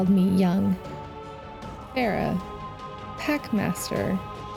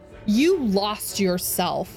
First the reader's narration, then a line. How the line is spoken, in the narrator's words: Saladin barks